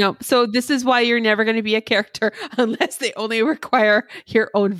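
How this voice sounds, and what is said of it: Usual voice. Nothing is said of it.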